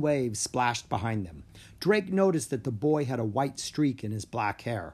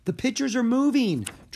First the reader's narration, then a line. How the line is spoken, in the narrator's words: Drake cried